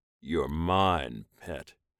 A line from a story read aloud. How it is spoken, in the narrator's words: Rogen growled into the human's ear